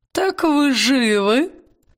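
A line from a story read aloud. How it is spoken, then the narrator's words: Hoarse mocking croak. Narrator (Russian): хрипло-насмешливо каркнула она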